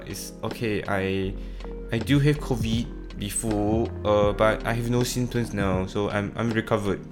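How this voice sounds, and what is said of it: English with French-style pronunciation. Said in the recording (Chinese): “模仿的时候 ... 他说英语的时候确实有这个感觉很法国人的那一种发音方式”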